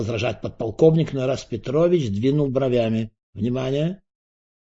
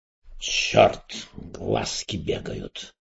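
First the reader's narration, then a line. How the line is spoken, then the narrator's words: Muttering. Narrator (Russian): пробормотал Эраст Петрович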